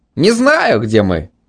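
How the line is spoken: Cheerful declaration. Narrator (Russian): весело заявил Митя

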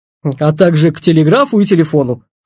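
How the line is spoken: Hmph. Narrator (Russian): хмыкнул Петр

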